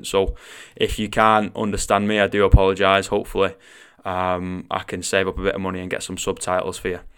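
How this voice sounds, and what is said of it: Mancunian northwest English accent. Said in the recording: “I am Mancunian... I do come from the northwest of England, and I do have a little bit of a funny accent.”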